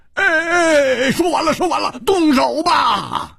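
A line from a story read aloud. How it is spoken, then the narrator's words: Loud, in unison. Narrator (Chinese): 戴独行和胡铁花不约而同大声说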